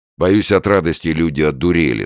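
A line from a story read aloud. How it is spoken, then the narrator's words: Angry. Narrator (Russian): сказал он сердито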